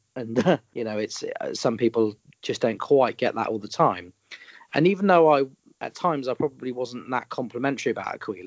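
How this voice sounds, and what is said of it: Common Southern UK accent. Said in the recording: “I've got quite a common Southern UK accent.”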